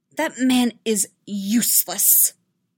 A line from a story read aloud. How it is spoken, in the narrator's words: she spat